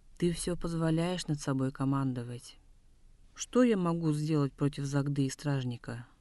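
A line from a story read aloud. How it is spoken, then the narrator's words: Dejected voice. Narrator (Russian): Упавшим голосом сказал Делгер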